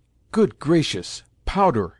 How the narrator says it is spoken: exclaimed Mimi, in a voice trembling with alarm

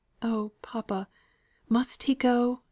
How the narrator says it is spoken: said Margaret, pleading against her own conviction of necessity

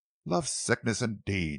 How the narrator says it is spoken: she repeated scornfully

